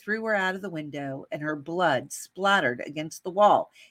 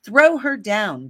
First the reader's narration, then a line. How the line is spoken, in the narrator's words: Jehu yelled